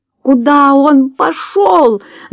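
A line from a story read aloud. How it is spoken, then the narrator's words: Frightened scream. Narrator (Russian): закричала Джулия, неожиданно испугавшись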